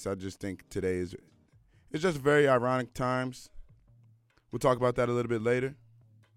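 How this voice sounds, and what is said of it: Slightly raspy morning voice. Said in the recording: “my voice sounds a little raspy.”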